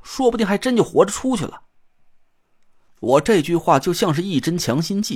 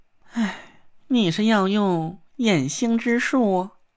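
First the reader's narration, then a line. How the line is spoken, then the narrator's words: Soft sigh after silence. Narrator (Chinese): 纳若兰沉默了半天，轻轻叹了口气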